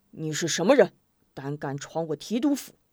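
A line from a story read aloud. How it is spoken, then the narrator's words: Fierce, stern soldier. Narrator (Chinese): 一名校尉气势汹汹，厉声道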